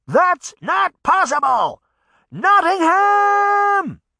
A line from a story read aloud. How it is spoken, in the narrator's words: she shouted